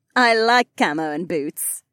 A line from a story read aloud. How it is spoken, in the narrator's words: the soldier laughed